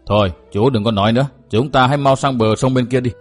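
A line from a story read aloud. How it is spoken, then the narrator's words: Hushing, urgent advice. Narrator (Vietnamese): Lão đại vội kêu xịt một tiếng, khuyên bảo rằng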